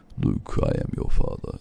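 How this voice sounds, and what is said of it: Deep James Earl Jones impression. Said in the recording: “when they speak down here with a James Earl Jones voice”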